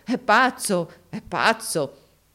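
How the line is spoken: Everyone laughing, exclaiming. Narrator (Italian): tutti scoppiarono dalle risa, esclamando

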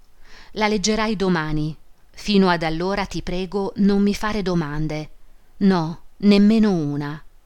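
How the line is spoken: Solemn. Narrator (Italian): disse in tono solenne

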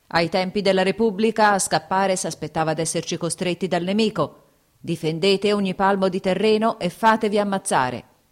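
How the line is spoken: Shouted with a curse. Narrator (Italian): gridò, accompagnando con una bestemmia l'imperativo

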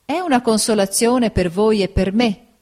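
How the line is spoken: Plain. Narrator (Italian): disse mia zia

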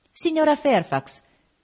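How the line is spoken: Exclaiming. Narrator (Italian): esclamai

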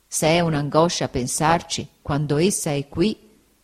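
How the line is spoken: Plain. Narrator (Italian): egli disse

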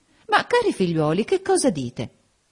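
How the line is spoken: Exclaimed. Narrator (Italian): esclamò Lady Lynn

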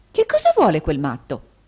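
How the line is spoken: Angry nurse exclaiming. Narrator (Italian): esclamò l'infermiera guardando irata in giro

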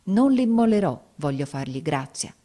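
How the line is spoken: Exclaimed. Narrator (Italian): esclamai

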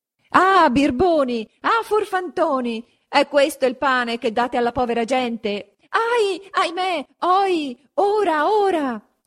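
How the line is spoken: Shouting from below. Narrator (Italian): s'urlava di giù

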